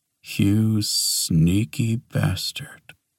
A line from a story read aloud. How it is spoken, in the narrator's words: Reed muttered